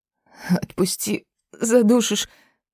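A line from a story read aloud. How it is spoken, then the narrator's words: Wheezing, choked. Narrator (Russian): прохрипела девка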